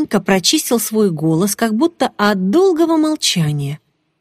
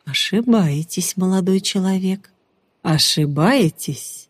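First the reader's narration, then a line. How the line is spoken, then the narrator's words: Gentle voice. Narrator (Russian): ласковым голосом промолвил Ариман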